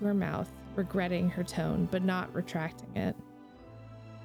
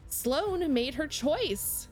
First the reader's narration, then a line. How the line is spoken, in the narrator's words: Aisha shouts